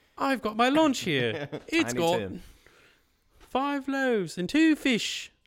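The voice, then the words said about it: Put-on Cockney accent, child character. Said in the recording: “he's like Cockney accent. ... he's gotta be like Tiny Tim.”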